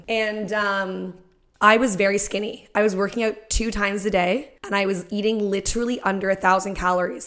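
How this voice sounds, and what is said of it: Voice giving out, strained. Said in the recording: “my voice is like going”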